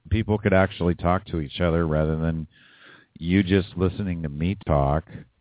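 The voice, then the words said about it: Very hoarse voice. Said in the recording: “my voice is very hoarse because I've been talking nonstop since like last week.”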